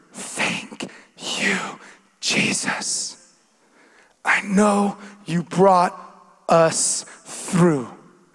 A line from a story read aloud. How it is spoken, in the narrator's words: whispered